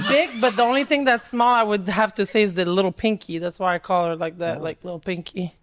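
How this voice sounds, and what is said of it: French Canadian accent. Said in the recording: “What's your accent? ... I'm from Canada, Montreal. ... I know Canadians that don't sound like you. ... Canadian A, but like from the French part.”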